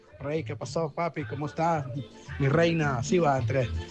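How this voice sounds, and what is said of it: Put-on Mexican accent. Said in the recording (Spanish): “acento ... 100% mexicano ... ¿Quién no va a conocer ese acento?”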